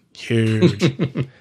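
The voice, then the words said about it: Imitates another person's voice. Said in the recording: “my Trump impression.”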